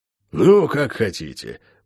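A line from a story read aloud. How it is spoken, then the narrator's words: Sigh after pause. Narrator (Russian): после недолгого молчания вздохнул он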